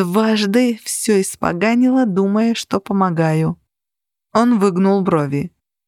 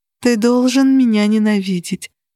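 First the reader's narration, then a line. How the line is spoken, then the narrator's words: Moaning. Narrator (Russian): простонала я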